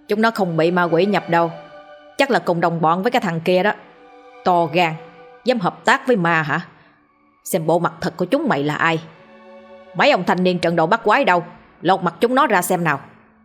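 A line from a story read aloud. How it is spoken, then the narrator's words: Smiling, harsh gritted voice. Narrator (Vietnamese): Lão Tam mỉm cười, gằn giọng nói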